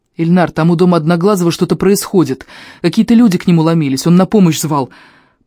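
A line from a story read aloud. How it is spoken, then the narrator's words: Rapid patter. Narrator (Russian): протараторил я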